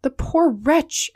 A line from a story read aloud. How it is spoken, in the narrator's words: exclaimed Passepartout